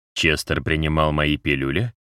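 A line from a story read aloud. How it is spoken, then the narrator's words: Quiet question. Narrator (Russian): тихо спросил Юмус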